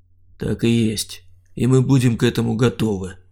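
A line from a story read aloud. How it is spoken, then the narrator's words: Calm. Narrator (Russian): спокойно проговорил Саня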